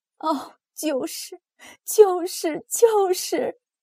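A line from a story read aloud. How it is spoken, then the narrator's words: Hysterical sobbing repetition. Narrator (Chinese): 他激动的反驳，歇斯底里大哭起来，不停的重复说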